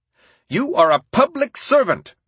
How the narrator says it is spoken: Roosevelt shouted, thumping the table

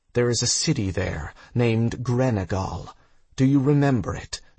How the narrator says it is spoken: she asked

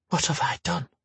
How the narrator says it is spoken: she whispered

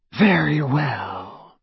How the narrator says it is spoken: said Voldemort, Harry heard more danger in the silkiness of his voice than in the most powerful curse

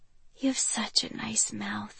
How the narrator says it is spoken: I whisper

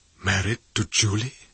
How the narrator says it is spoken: He said in a half whisper

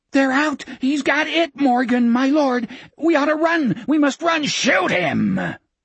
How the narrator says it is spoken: Morgan screamed into Gardner's face

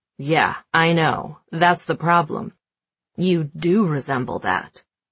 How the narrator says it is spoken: Gabe chuckles and says

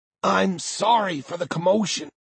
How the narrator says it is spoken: Walker says, her voice slightly strangled thanks to the angle Six has her head at

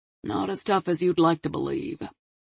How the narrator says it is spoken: Marvin grumbled

